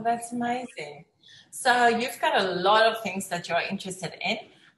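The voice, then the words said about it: South African accent. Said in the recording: “like you, I'm also from South Africa. We get the accents ... Oh, you must be from South Africa because of your accent.”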